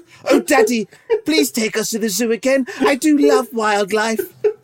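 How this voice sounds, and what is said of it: Prim Famous Five-style kid's voice. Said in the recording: “That's a kid's voice, like the Famous Five... I don't want people thinking my kids are from the Famous Five”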